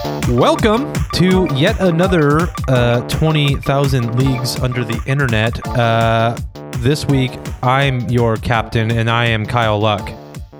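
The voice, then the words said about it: Stiff, robotic-sounding delivery. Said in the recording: “You sound kind of like a robot captain in that intro.”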